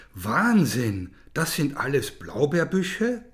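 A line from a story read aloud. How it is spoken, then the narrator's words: Exclaimed. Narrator (German): ruft Gustav aus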